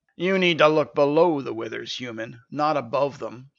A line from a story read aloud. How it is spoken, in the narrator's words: the centaur growled